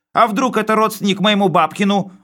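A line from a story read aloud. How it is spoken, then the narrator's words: Yelling. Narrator (Russian): вопил он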